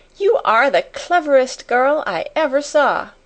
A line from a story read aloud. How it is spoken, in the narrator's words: she cried out